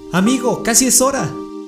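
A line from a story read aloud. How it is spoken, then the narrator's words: Shouting. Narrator (Spanish): me gritó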